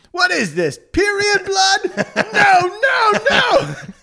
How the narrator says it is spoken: Dave goes to the bathroom and screams

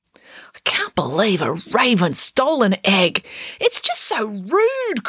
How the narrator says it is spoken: cried Mum

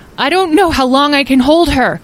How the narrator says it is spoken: Azrael yelled

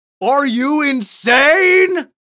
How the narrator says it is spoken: Bert roared at her

